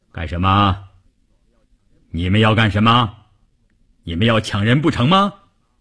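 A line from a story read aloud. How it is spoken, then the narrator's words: Booming voice. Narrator (Chinese): 一个大块头，一开口声音炸得人头皮都发麻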